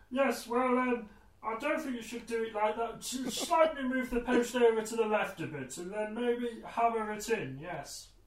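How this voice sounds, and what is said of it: Impression of a father's voice. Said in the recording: “the accent that you do when you do your dad's voice”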